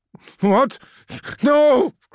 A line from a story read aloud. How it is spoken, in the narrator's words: cried Lemuel